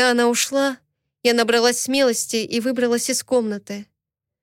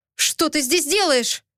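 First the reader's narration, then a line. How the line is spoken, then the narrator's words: Exclamation. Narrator (Russian): воскликнул он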